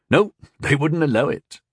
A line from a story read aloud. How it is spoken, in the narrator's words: chuckled